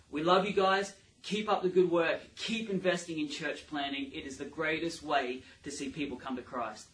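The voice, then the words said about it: Australian accent. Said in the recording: “an Aussie accent”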